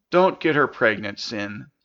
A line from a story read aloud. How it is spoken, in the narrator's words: Hugh said earnestly